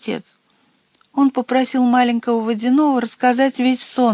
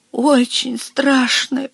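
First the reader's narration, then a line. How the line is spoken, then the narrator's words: Small creature moaning. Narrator (Russian): простонал маленький водяной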